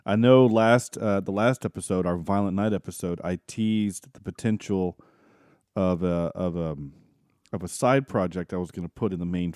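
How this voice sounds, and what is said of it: Altered, velvety sick voice. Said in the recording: “my voice is a little altered tonight... Velvety... Because I have been dealing with the flu”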